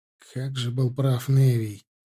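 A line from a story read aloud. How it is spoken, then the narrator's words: Sigh. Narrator (Russian): вздохнул Арди, вспоминая своего приятеля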